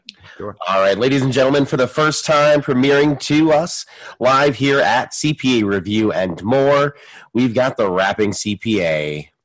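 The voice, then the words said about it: Radio DJ announcer voice. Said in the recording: “He's got that DJ voice.”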